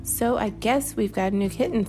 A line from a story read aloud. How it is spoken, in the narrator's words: said Mama